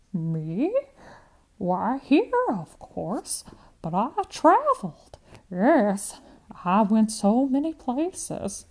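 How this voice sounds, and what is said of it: Old woman speaking with an accent. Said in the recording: “The accent is stronger.”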